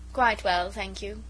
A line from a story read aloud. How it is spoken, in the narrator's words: said dryly